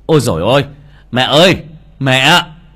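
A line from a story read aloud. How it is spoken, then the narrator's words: Frantic shouting while running. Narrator (Vietnamese): Kha vừa đi vừa hét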